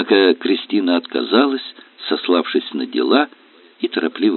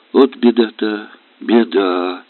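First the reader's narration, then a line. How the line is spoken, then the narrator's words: Mother's sigh. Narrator (Russian): вздохнула мать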